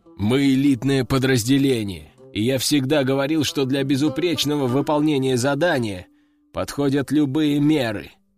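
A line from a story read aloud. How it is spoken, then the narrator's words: Commander's deep bass. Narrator (Russian): пробасил командир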